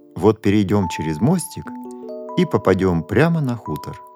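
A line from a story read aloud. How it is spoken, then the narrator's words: Plain. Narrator (Russian): сказал папа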